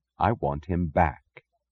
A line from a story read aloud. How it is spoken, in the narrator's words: said softly